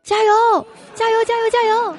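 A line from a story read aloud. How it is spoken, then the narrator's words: Shouting from behind. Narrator (Chinese): 我在后面大喊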